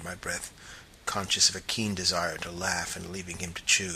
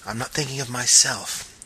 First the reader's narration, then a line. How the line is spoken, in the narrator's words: he interrupted sharply